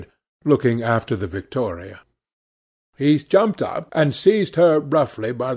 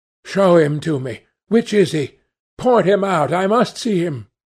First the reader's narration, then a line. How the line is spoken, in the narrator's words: he exclaimed